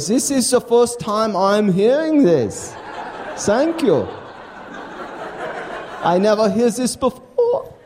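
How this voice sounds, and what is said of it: Put-on German accent in English. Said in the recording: “speaking English with a German accent ... I'll use my accent”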